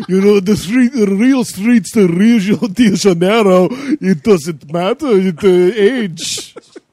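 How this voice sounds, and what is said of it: Put-on vague accent, Count-like. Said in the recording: “I don't even know what accent I'm doing. ... It kind of sounds like the Count from Sesame Street.”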